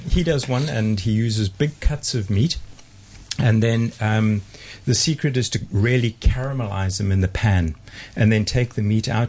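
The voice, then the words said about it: South African accent. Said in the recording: “South African accent”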